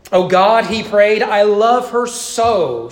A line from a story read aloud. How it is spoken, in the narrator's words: he cried as she lied there dying